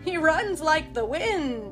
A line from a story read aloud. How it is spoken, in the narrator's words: exclaimed